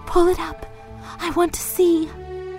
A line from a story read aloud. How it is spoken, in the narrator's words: Johnsy ordered in a whisper